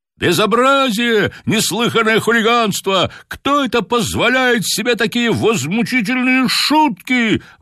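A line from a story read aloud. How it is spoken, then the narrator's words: Excited crowd shouting. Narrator (Russian): возбужденно кричали на трибунах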